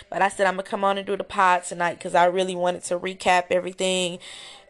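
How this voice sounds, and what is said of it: Hoarse voice. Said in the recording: “my voice is hoarse”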